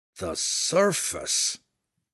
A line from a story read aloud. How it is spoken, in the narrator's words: Belwar muttered, his voice almost a groan